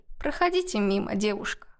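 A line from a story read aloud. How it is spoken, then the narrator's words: Weary. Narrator (Russian): устало произнесла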